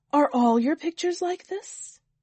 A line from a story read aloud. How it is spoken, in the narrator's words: One servant exclaimed in surprise